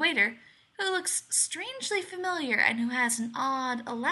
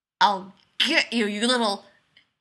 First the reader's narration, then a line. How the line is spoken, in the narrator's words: he growls